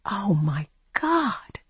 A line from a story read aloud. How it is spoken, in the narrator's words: I whispered